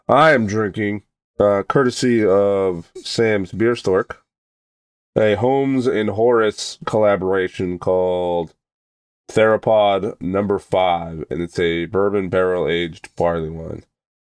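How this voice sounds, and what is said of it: Voice still slightly sick. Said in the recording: “fighting off whatever this is... You can still hear it in my my voice a little bit”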